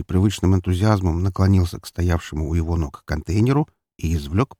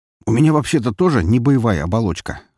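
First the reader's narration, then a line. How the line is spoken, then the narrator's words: Smirking skinny young man. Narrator (Russian): хмыкнул довольно тощий парень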